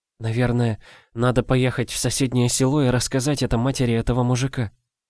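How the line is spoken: Mumbled. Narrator (Russian): пробормотала

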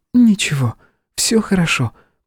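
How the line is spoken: Whisper. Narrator (Russian): прошептала она

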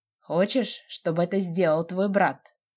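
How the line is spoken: Sly, hoarse question. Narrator (Russian): Лукавый и хриплый вопрос срывается с его губ

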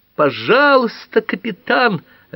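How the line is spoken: Shrill squeal. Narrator (Russian): опять взвизгнула мисс Эйкин

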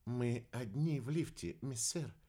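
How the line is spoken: Very quiet reply. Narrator (Russian): очень тихо ответил Валентин

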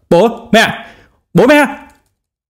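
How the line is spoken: Dazed, loud scream. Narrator (Vietnamese): Trương Đồng Thăng miệng đờ đẫn hét to

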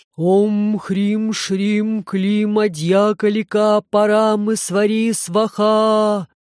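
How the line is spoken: Loud low chest chant. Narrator (Russian): Громко, нараспев низким грудным голосом, проговорил незнакомец

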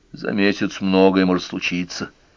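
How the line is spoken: Gloomy speech. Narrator (Russian): уныло сказал Рой

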